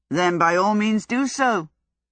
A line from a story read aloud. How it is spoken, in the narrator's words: laughed this advanced young man